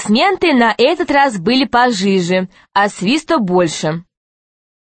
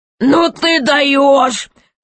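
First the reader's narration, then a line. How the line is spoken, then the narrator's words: Laughing king. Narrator (Russian): хохотал король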